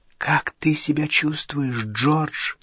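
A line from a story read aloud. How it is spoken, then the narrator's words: Whisper. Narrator (Russian): прошептала миссис Уизли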